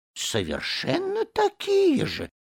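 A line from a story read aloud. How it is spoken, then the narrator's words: Turtle muttering. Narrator (Russian): пробормотала черепаха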